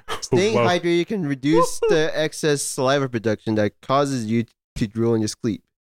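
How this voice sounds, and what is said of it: Noticeable accent. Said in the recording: “Wait, did you just say exercise? ... Oh, accent.”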